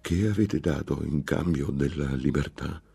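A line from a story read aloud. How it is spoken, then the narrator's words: Muffled fearful voice. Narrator (Italian): rispose dopo un lungo silenzio con una voce smorzata dalla paura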